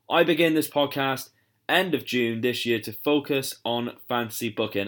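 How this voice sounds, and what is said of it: British accent. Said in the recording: “I am obviously from the UK, as you can tell by my accent”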